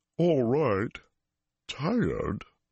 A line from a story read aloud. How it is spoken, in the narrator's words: His voice was a rumble like the earth moving